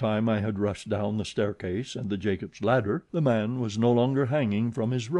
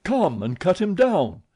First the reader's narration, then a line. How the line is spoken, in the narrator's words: I shouted